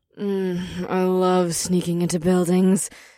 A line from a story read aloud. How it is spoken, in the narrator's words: Ash let out a dreamy sigh